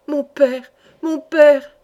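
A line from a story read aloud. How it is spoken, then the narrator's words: Exclaiming. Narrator (French): s'écria Madeleine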